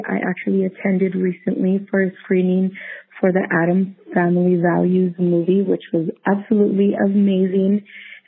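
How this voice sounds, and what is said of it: Slightly rough voice. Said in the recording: “My voice is a little bit um, rough because I actually am recovering it”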